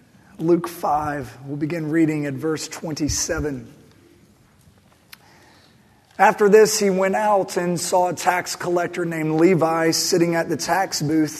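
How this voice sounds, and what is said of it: Strained, sore-throated voice. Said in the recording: “sorry about my voice. ... my throat feels a little better, but now I can't open my mouth.”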